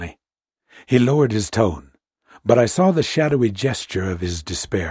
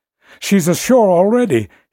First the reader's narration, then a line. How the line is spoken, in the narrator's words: he wailed, trying to tear himself away